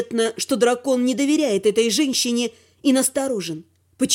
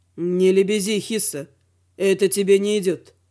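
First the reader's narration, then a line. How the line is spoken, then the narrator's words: Grim smirking remark. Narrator (Russian): мрачно усмехнувшись, заметил Велор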